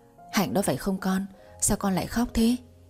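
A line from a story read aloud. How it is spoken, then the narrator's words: Concerned call. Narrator (Vietnamese): Bà khẽ nhíu mày lên tiếng gọi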